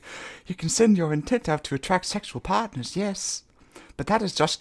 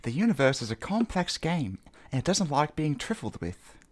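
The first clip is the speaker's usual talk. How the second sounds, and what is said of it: Put-on British accent. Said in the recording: “That's how British people pronounce trifled. ... A new kind of accent.”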